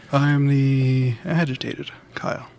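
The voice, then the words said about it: Calm, soothing radio-announcer voice. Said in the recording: “You soothe us with the NPR voice”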